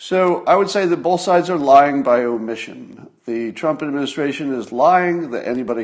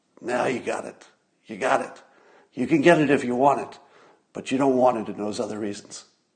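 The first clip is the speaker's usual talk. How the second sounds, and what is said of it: Godfather-style mafia gangster voice. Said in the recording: “my generic mafia impression um, from The Godfather”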